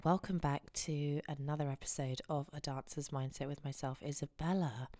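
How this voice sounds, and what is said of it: Husky voice. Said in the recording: “As you can tell by my voice, I've been ill for a week... I'm embracing the husky, husky voice.”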